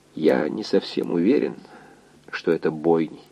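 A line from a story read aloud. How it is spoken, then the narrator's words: Quiet answer. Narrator (Russian): тихо ответил доктор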